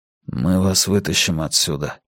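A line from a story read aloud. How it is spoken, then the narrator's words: Whispered. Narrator (Russian): прошептал Йона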